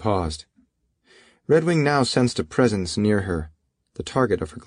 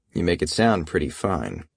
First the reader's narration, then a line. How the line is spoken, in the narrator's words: Redwing said in a flat voice, no inflection at all